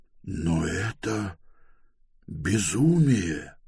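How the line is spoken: Whisper. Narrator (Russian): прошептал Пилорат

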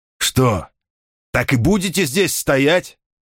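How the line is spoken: Shouted. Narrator (Russian): крикнул свистун

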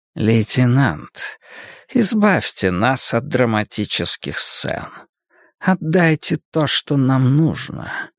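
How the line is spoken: Insinuating voice. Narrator (Russian): вкрадчиво прозвучал за спиной знакомый голос

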